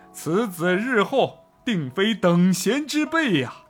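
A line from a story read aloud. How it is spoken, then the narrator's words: Group exclaiming in amazement. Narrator (Chinese): 太守与随从无不惊叹道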